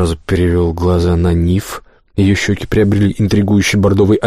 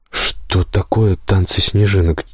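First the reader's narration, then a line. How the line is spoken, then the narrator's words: Quiet question. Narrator (Russian): тихо спросил я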